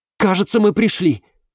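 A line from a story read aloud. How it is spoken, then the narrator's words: Exclaiming. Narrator (Russian): воскликнула Валериана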